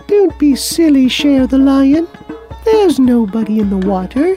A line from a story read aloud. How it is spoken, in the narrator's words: a beautiful butterfly said in her tiny little voice